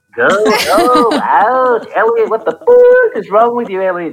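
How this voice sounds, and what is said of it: E.T. character voice impression. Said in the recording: “my ET impersonation”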